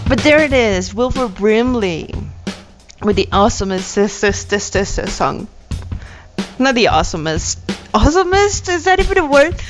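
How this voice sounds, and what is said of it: English accent. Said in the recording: “my English accent. ... It's fucking terrible, I know.”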